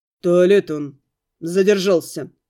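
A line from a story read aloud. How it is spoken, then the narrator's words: Growled by a wolf. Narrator (Russian): рыкнул волк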